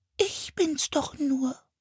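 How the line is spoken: Squeaky voice. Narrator (German): sagte mit piepsiger Stimme

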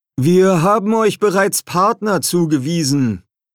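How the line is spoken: Loud. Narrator (German): sagte Master Rockmaple laut

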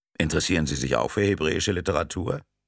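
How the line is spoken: Plain question. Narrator (German): fragte Cortone

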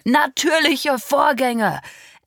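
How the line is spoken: Angry echo. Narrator (German): echote mein Vater wütend

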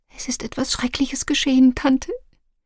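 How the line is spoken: Fearful whisper. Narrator (German): ängstlich, flüsterte

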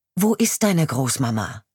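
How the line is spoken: Firm voice. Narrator (German): frage ich mit fester Stimme

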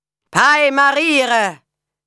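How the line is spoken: Men calling out. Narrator (German): riefen die Männer

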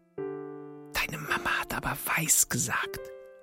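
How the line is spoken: Whisper. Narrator (German): flüstert Sam

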